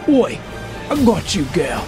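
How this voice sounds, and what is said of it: Put-on Australian accent. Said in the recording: “at this point I gotta change the accent ... He's Australian.”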